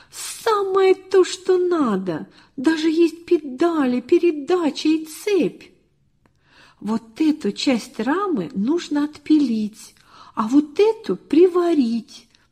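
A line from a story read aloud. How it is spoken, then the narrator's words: Exclaiming almost in unison. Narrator (Russian): чуть не разом воскликнули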